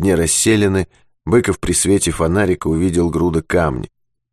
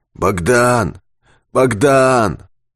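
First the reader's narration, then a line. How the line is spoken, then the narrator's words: Hoarse calling from above. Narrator (Russian): наверху хрипло зовет Юрковский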